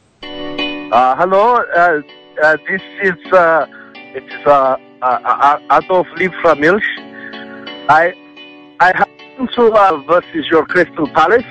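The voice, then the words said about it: Inconsistent put-on foreign accent. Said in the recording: “My accent has changed during the course of this phone call.”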